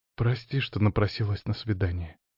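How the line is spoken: Quiet shy woman. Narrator (Russian): тихо проговорила графиня, опустив глаза

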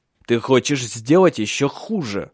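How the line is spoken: Hissing through teeth. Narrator (Russian): прошипел он сквозь зубы

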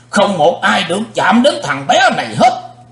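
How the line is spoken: Thunderous shout. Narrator (Vietnamese): Sư diện quái ma hét tạo sấm

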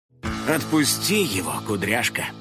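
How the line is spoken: Sighing. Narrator (Russian): вздохнул Финик

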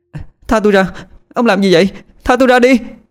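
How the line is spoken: Frightened shouting. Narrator (Vietnamese): Thùy Trang la lên, đôi mắt sợ hãi

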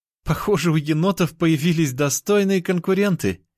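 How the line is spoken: Giggling. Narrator (Russian): хихикала сестра

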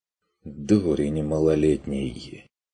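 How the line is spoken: Exhausted sigh. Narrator (Russian): вздохнул Стрик обессиленно

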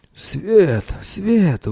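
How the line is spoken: Exclaimed. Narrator (Russian): воскликнул Цирон

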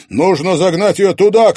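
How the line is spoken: Shouted. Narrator (Russian): крикнул Стас

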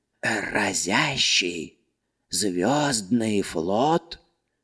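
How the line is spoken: Confused bewildered mumbling. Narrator (Russian): непонимающе бормотал он, растерянно

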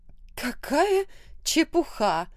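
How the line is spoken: Exclamation. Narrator (Russian): воскликнула леди Джекинсон

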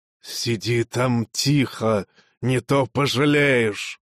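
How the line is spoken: Hissing. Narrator (Russian): прошипел

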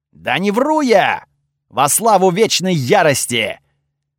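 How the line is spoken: Loud, sincere objection. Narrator (Russian): Так же громко и очень искренне возразил Готфрид

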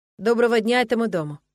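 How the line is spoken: Calm, confident tone. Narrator (Russian): произнес Нолан каким-то особенным спокойным и уверенным тоном

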